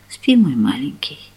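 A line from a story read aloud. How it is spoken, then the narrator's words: Whispered. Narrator (Russian): шепнула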